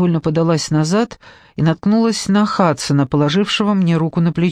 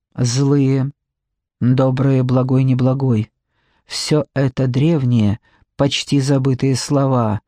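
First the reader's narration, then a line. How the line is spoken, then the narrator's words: Soft. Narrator (Russian): мягко произнес двойнец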